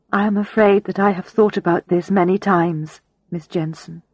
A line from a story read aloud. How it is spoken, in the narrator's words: she replied